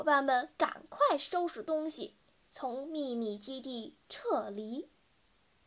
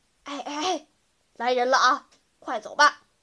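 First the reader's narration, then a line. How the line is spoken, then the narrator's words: Sudden urgent whisper. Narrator (Chinese): 小胖子突然低声叫道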